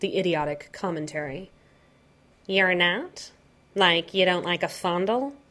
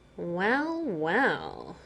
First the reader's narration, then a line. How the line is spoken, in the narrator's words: Joker purred